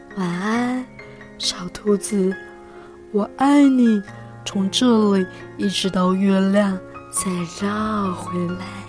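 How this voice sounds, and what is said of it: Soft, quiet, smiling voice. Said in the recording (Chinese): “小声的微笑的说”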